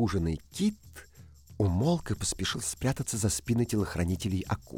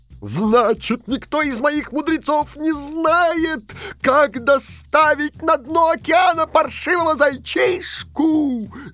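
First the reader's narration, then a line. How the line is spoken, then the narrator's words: Dragon shouting. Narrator (Russian): закричал дракон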